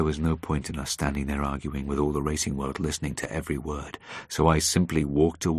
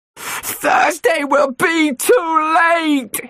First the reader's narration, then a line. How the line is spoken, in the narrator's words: he screamed at me